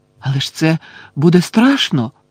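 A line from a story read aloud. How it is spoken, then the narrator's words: Exclaimed. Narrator (Ukrainian): вигукнула Лаванда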